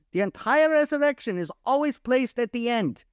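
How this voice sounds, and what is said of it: Put-on German accent. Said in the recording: “I had to put it in a German accent because it sounded like that's something, you know, only a German would do.”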